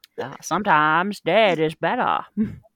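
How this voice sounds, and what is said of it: Put-on Maine Yankee accent. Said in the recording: “that was so perfect. That was a perfect Yankee accent.”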